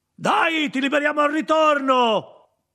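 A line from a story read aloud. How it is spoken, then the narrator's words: Shouted without turning. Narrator (Italian): gridò senza girarsi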